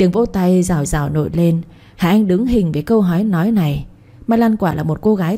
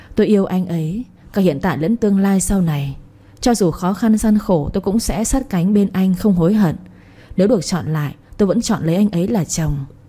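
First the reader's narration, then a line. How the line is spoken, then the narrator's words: Soft, into microphone. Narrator (Vietnamese): Cô nhẹ nhàng nói vào micro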